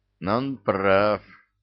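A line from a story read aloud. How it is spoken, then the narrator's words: Gloomy musing. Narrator (Russian): мрачно прикидывал нечистый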